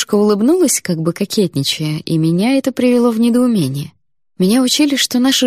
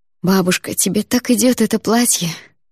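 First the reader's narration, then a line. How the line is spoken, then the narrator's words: Worried sigh. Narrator (Russian): вздохнула я, все еще переживая за Андрея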